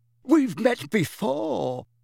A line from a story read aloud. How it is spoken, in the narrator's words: squeaked the excitable Diggle